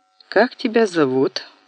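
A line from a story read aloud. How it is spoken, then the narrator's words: Plain. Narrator (Russian): спросил мальчишку Пегов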